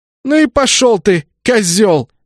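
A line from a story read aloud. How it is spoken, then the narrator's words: Heated shout. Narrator (Russian): С чувством выкрикнула она мне вслед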